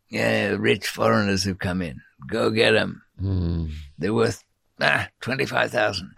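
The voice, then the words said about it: Put-on Mexican accent. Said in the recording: “I'm using a Mexican accent for that ... venality seems to go with that accent”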